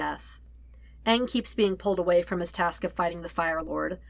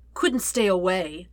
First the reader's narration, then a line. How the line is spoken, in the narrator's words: Ozai asks, his voice loud above the roar of the flame